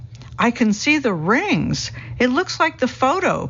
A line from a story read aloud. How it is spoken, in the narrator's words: people exclaim with delight